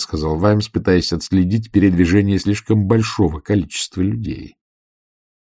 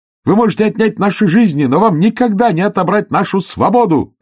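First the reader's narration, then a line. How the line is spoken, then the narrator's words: Shouting. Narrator (Russian): крикнул он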